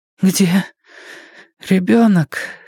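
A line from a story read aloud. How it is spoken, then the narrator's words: Hoarse question. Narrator (Russian): хрипло спросила Фрэн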